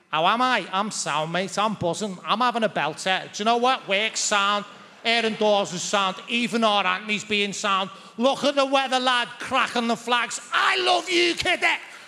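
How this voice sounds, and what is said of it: Put-on Scouse accent. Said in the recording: “Apologies for the accent, by the way. ... the second state of Scouse being”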